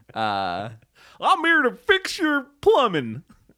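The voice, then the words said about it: Goofy character voice. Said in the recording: “That's my goofy impression.”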